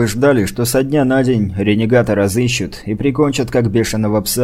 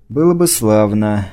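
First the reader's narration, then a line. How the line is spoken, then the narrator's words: Sigh. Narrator (Russian): вздохнул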